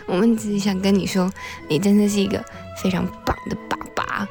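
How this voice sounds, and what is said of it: Speaking very quietly, hushed. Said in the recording (Chinese): “我们现在讲话这么小声，其实是因为我们好像只跟你隔了一道墙”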